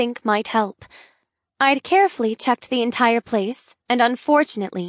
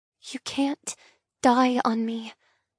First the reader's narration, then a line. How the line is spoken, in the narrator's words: whisper